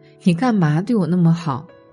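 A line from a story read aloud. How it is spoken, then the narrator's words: Plain. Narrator (Chinese): 她老公说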